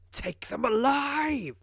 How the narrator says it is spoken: screams Lorg above the savage howls of his troll legion

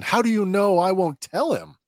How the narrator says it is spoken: he shouts at Luthen

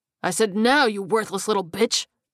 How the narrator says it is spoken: her boss snarled

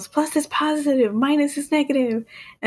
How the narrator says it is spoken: Woody yells

